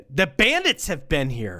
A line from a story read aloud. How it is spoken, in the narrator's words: Frank exclaimed